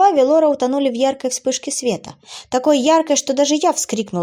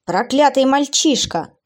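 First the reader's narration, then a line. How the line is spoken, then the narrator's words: Demon's growl. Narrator (Russian): зарычал демон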